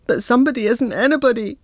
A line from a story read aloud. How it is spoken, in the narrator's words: wail